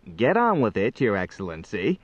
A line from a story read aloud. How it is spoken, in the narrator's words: chuckled Faljapan